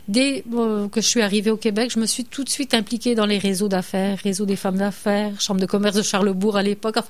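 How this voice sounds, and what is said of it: French with an immigrant's accent. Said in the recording (French): “vous entendez à mon accent que je suis immigrante”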